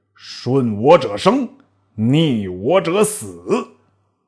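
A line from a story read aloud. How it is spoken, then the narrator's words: Angry rebuke. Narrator (Chinese): 卓怒斥曰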